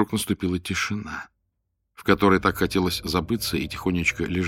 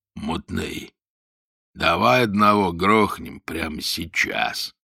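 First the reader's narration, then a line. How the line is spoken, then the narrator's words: Growl. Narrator (Russian): прорычал Гоша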